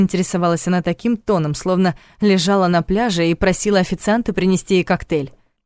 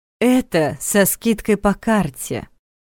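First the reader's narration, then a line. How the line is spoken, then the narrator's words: Lazy explanation. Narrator (Russian): лениво пояснила кассир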